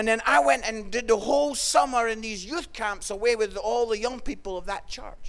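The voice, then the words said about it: Scottish accent. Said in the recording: “I was a young Scottish guy in my early 20s ... Canadians love the Scottish accent.”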